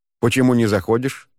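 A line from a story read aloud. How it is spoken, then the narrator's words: Plain. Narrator (Russian): спросил подошедший Муан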